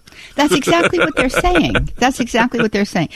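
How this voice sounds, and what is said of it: Pittsburgh accent. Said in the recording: “I cannot completely ditch my Pittsburgh accent.”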